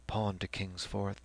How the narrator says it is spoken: The medical student went on in a softer voice

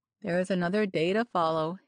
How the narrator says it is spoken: he dryly remarked

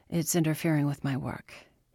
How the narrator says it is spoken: he said

